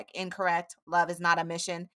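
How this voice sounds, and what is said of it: Robotic Cyberman voice. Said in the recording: “that very good Cyberman impression ... That was immaculate.”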